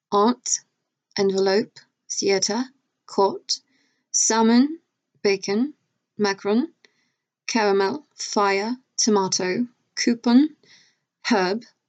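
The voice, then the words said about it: Put-on British accent. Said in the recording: “So I do a really good British accent”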